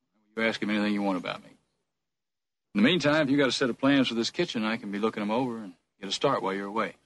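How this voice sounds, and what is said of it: Slight Texas accent. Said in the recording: “It's a guy who's putting on airs. ... I think it's a slight Texas accent, ... You get a little bit of molasses in your mouth”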